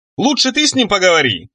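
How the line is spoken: Shouted. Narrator (Russian): крикнув девушке

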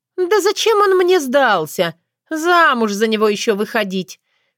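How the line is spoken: Dismissive laugh. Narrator (Russian): пренебрежительно рассмеялась Валентина

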